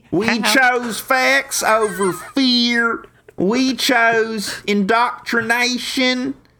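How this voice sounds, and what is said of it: Ron DeSantis impression, Florida accent. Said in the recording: “beautiful timbre ... Beautiful Florida voice, beautiful Florida accent.”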